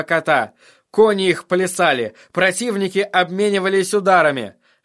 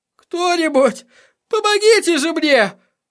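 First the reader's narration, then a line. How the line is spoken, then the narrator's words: Breathless plea. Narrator (Russian): выдохнул певец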